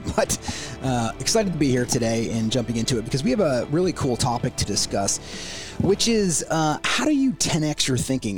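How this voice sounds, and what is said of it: Slightly ill, imperfect voice. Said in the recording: “my voice is not perfect today. I've been battling a little bit of a virus”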